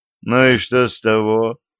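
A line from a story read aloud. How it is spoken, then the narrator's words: Feigned casual tone. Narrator (Russian): делано небрежным голосом спросил он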